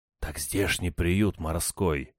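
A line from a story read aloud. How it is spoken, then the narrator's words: Whispered in ear. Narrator (Russian): зашептал я ему на ухо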